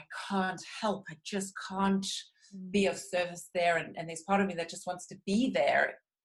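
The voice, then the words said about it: South African accent. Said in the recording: “my accent ... I hail from South Africa”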